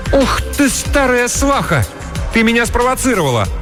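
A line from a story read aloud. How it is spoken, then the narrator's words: Sly laughing. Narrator (Russian): Мейбл засмеялась с лукавой улыбкой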